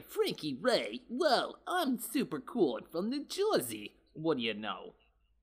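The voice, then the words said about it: New Jersey accent. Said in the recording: “this better be New Jersey with her having that accent”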